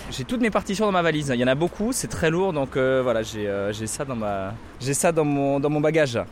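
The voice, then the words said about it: Southern French accent. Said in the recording (French): “C'est quoi ce petit accent du sud? ... je viens du sud effectivement ... je viens de Carcassonne. Dans le Midi.”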